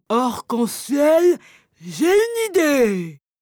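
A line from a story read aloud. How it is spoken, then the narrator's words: Sudden cry. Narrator (French): s'écrie soudain Dumbo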